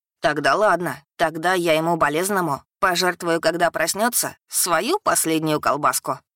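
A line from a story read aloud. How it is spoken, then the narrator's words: Amused snort, small dragon. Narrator (Russian): хмыкнул дракончик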